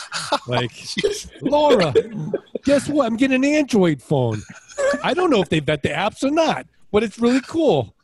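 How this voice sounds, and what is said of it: Poor put-on accent. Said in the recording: “That's not a good accent.”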